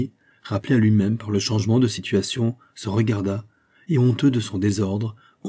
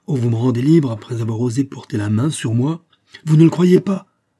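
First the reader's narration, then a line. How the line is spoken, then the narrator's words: Indignant exclamation. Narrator (French): s'écria Fouquet indigné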